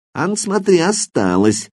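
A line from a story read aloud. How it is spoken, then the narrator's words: Snide objection, sturdy man. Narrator (Russian): ехидно возражал крепко сбитый мужичок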